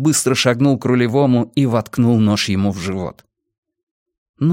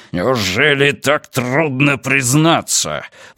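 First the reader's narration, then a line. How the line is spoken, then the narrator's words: Growling. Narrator (Russian): прорычал Рафаэль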